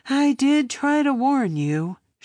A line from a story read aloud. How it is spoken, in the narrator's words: she sighed